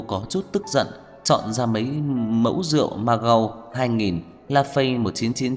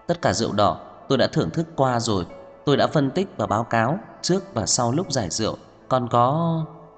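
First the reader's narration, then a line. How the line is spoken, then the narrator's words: Surprised soft voice. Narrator (Vietnamese): ngạc nhiên, khẽ nói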